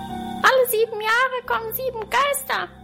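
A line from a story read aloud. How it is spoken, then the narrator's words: Squeak. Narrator (German): quiekte ich als Erste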